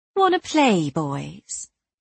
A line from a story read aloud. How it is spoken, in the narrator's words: I purred with acid sweetness